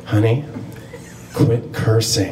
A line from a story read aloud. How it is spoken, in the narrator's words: my mom whispered in my ear